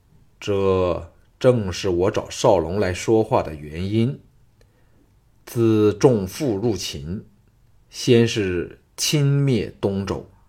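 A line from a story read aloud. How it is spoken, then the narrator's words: Deep, grave. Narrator (Chinese): 王和沉声说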